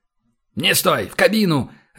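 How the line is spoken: Barked. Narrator (Russian): рявкнул Кэп

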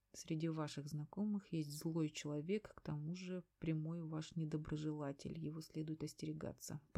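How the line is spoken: Mumbling, recalling. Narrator (Russian): пробормотала я, вспоминая

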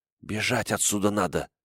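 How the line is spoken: Whisper. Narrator (Russian): прошептала Акеми

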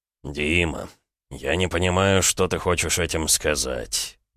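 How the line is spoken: Soft. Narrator (Russian): мягко проговорил Эдуард

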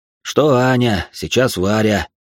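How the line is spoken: Heavy sigh. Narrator (Russian): тяжело вздохнул он

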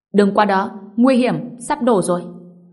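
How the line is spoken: Bystander shouting. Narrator (Vietnamese): Có người bên cạnh hét lên

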